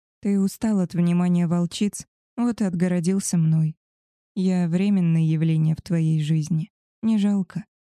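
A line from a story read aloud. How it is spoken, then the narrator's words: Calm, hiding hurt. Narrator (Russian): спокойно сказала, вот только внутри все горело от обиды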